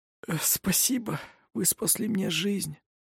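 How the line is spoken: Breathless. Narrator (Russian): выдохнула Элизабет

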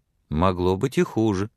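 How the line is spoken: Cheerful, smiling. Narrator (Russian): весело улыбаясь, сказала Сексон

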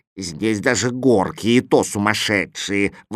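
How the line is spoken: Grumbling. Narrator (Russian): ворчал Кузя

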